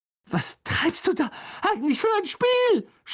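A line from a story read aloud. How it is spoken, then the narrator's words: Shout. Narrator (German): schrie er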